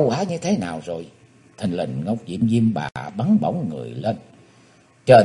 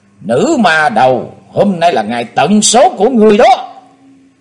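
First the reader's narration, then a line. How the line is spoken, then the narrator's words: Ringing shout. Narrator (Vietnamese): chàng hét vang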